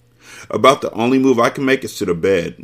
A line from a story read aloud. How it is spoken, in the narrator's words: Naya yawned